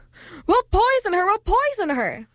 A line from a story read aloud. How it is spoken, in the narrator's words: shrieked the witches